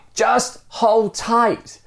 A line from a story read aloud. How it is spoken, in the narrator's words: the stranger yells